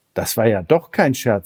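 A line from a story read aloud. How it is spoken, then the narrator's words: Plain. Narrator (German): sagte Elmar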